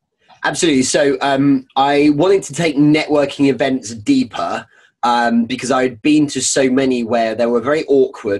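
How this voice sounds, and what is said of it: Strong British English accent. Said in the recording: “this kind of English element ... you are as British as it goes. Your accent”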